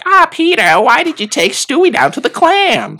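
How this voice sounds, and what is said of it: Lois Griffin impression, northeastern accent. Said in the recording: “Yeah, that is a northeastern accent.”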